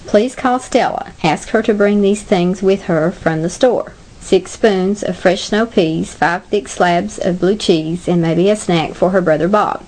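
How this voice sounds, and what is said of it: Speaking with a regional accent. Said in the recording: “guess which country they come from their accent”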